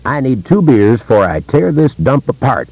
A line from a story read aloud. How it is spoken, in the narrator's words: yells